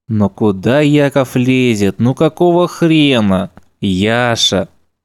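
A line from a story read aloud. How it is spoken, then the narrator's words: Gentle. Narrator (Russian): Ласково начал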